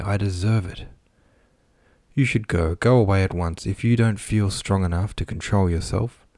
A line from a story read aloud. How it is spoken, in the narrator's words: she would reply sadly, trying to comfort her husband